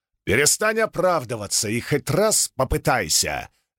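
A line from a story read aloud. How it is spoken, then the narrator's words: Barked. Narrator (Russian): рявкнул Далинар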